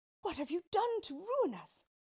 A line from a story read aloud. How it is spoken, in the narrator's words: cried Ali Baba and their heir